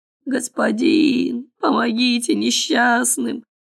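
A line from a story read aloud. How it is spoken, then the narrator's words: Hoarse pleading. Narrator (Russian): хрипели они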